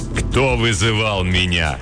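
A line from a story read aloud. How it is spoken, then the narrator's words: Menacing question. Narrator (Russian): грозно спросило темное существо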